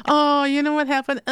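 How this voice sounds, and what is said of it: Whiny voice. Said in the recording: “That's my whiny voice.”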